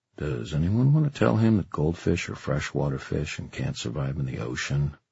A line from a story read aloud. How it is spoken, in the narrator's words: said Julian quietly